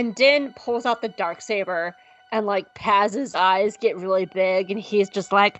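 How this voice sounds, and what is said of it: Usual voice. Nothing is said of it.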